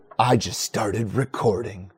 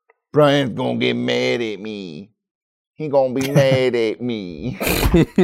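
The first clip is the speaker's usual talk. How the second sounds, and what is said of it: New comedic character voice. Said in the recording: “Is that your new character voice? ... I hate it so much.”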